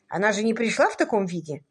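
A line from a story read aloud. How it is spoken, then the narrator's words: Sharper tone. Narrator (Russian): более резко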